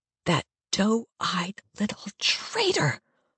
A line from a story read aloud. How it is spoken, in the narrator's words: I hiss